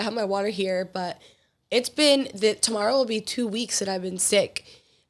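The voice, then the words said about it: Slightly raspy sick voice. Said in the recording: “You can hear it in my voice. I'm still a little raspy,”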